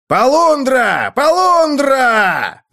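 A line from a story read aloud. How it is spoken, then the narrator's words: Yelling alarm. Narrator (Russian): завопил Инджи, поднимая команду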